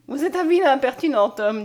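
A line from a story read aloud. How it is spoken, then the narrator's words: Fresh, ringing childlike laugh. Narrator (French): dit-elle en riant du rire frais et sonore de l'enfant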